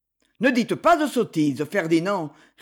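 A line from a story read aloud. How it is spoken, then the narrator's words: Curt, dry retort. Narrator (French): répliqua Lord Gérald d'un ton sec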